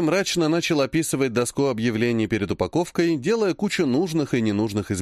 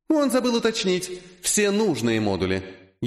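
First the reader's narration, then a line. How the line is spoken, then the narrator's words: Snide remark. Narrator (Russian): ехидно заметил писец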